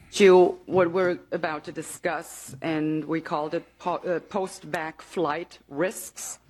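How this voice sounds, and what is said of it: Mild possibly German accent. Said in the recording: “she could be from Germany... because of her accent. It's not a very thick accent.”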